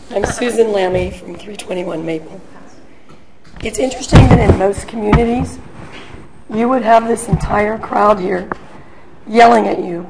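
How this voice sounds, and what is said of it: Hoarse, strained voice. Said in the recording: “I have laryngitis, so you have to excuse me. Actually, either that or I'm disguising my voice.”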